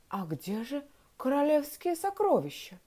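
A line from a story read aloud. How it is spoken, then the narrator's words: Confused officer mumbling. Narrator (Russian): растерянно пробормотал офицер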